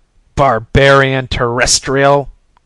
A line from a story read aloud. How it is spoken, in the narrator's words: snarled